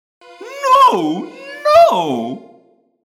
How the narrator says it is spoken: Guide pleaded, whining away through his diaphragm

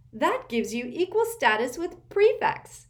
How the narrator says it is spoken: cried Hermione happily

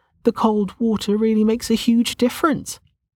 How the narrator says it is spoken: she laughed

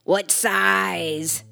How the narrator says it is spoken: Snarled the barkeep

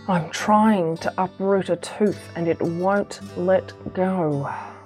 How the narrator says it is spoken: he moaned

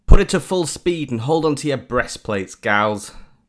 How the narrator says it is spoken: Captain Kiki shouted across the intercom

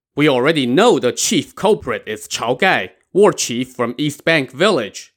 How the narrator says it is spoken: the prefect shouted

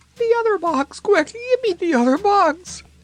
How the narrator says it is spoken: begged Blinky, who had now shrunk to half her former size

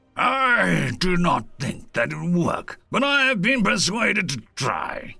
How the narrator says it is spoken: Issef growled

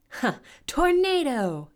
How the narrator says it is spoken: yelled Storm, the witch

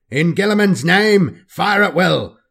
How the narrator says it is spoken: Lucian bellows over the screeching cries of the Xenos

